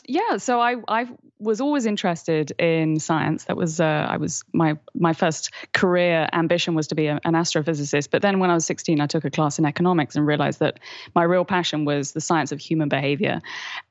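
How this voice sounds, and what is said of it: Accent like Keira Knightley's. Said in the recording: “I'd be played by Keira Knightley, obviously, with my accent”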